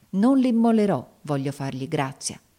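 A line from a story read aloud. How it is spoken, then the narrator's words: Exclaiming. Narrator (Italian): esclamai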